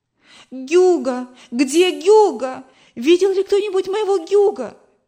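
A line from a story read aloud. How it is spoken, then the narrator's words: Frantic shouting. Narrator (Russian): кричала мама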